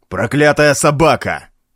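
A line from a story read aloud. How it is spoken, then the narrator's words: Shouted. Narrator (Russian): выкрикнул в Улме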